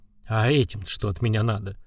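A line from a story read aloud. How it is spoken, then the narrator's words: Surprised mutter. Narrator (Russian): с удивлением в голосе пробормотал Гуран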